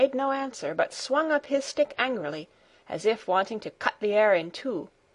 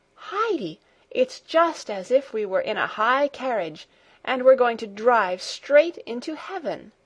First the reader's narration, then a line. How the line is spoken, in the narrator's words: she exclaimed in delight